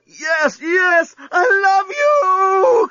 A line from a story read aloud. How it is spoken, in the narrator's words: cried Lucy